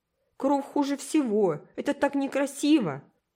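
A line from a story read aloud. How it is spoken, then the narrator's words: Exclaiming. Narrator (Russian): воскликнул Уолтер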